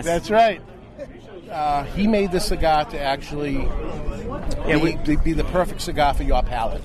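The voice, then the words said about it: Boston accent. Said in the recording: “You're getting a kick out of my accent here... Let me guess, you're from Boston, Mass.”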